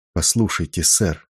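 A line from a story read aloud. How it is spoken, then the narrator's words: Quiet but insistent. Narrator (Russian): тихо, но настойчиво попросил он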